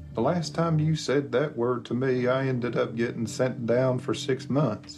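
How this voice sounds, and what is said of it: Southern American accent. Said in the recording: “He pulls off a Southern accent”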